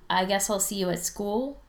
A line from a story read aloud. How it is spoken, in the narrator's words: he says finally